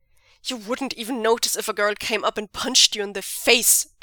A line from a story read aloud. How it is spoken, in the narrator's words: Zheng Cheng snaps